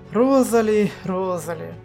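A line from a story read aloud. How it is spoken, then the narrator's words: Sigh. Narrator (Russian): вздохнула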